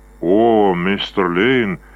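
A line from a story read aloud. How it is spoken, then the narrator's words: Unenthusiastic drawl. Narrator (Russian): без особого воодушевления протянул он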